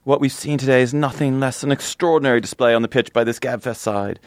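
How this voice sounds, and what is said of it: Bad put-on British commentator accent. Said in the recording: “This can be my bad British accent.”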